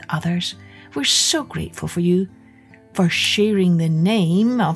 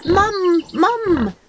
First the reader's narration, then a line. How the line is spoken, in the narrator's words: cried Kirsty